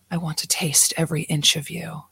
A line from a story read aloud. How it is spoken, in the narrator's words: Zerna whispered